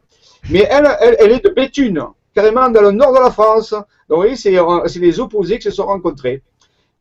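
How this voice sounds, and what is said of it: Marseille French accent. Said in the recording (French): “Je suis marseillais à l'origine, ça s'entend par mon accent.”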